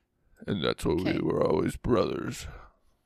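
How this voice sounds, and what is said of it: Imitates another person's voice. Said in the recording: “That was my best Dom impression... Oh, that's actually pretty good... It always turns into Sylvester Stallone”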